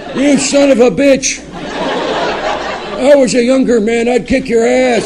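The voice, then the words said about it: Impression of an elderly grandfather. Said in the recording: “That was an impression of my grandfather.”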